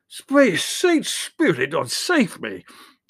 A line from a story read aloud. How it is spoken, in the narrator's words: implored loudly